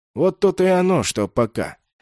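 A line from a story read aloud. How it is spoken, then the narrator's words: Sighing again. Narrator (Russian): снова вздохнул человек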